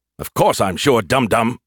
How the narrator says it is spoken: he snapped

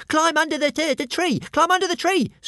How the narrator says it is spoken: screeched Toothless

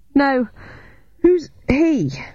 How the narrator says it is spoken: I gasped as I heaved the heavy oak table

